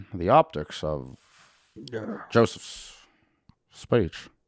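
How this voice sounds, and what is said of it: Imitates another person's voice, long pauses. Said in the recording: “That's my Obama impression. ... He just does long pauses.”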